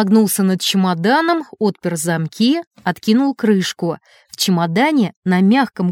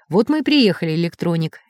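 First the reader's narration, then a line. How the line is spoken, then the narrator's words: Soft. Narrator (Russian): мягко произнес профессор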